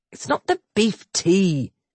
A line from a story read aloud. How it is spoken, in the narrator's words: he said irritably